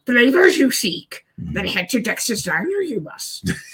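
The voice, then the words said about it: Off Yoda impression. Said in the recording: “my Yoda impression is. Man, my Yoda impression was off... Mine was worse than yours.”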